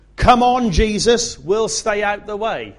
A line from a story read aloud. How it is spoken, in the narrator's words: the little girl closest to the aisle shouted